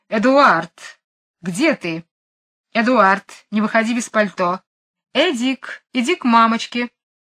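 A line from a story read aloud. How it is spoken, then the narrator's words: Shouting very loudly. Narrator (Russian): мисс Ларк кричит очень громким голосом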